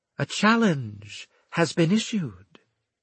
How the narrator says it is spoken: she said calmly

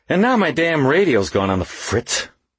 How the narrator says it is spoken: Waxy said irritably

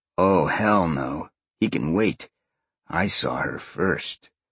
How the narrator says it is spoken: Sean growled softly

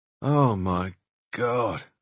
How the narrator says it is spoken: I groaned

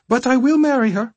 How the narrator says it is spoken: Arnell said in a lilting, comical voice

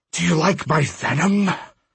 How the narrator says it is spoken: Apuch hissed

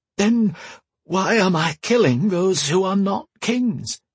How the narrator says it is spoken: Bear sighed

